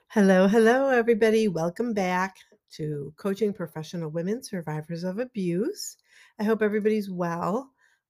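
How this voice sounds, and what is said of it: Slightly hoarse voice with a frog. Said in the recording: “I have a little bit of a cold, so I'm just warning you. My voice might go out at any time. ... I have this little weird frog in my throat”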